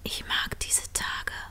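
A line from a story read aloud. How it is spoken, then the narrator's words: Whispered. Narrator (German): flüsterte Line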